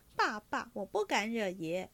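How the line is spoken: Laughing. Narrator (Chinese): 晴雯摇手笑道

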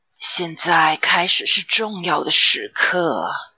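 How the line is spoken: Low voice. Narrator (Chinese): K 婆婆低声说

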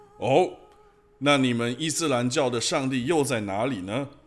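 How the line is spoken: Sharp stern retort. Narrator (Chinese): 神父厉声抢白道

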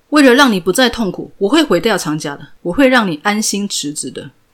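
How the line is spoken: Loud. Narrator (Chinese): 朴世禄继续对着公车上的吴秀儿大声说

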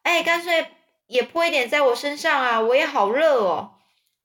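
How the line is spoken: Calling out. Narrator (Chinese): 艾弗瑞就叫着说

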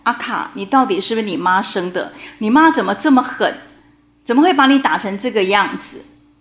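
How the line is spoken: Sympathetic. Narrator (Chinese): 他有几个同学都很同情他，常常会跟他说

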